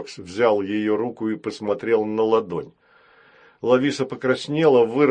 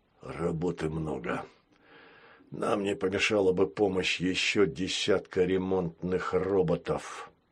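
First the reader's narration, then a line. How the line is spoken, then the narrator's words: Muttering. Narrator (Russian): пробормотал он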